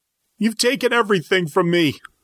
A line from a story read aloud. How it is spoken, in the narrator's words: wailed through the pain